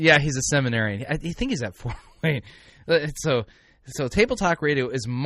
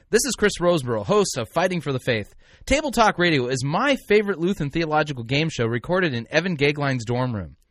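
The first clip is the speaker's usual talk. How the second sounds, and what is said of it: Professional radio announcer voice. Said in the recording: “Do my professional announcer voice.”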